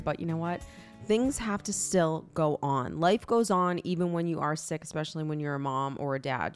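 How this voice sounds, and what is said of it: Congested, sick-sounding voice. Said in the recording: “I'm sick this week, so if I sound congested”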